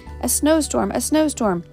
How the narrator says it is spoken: cried the men as they saw it falling

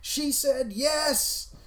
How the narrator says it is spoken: screamed

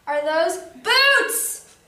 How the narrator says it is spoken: yelled Duck

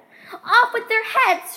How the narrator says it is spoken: shrieked the Queen

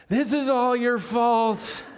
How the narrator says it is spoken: a mom, a cool and calm mom, yelling

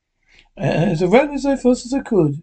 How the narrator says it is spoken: said, yawning

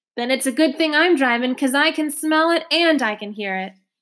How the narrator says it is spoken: yelled Charlotte

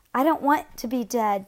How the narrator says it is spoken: David cried

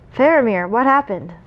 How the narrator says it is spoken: Boromir cried from atop the wall, his voice booming across the plain

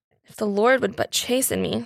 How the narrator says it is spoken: said the child to herself with a sigh

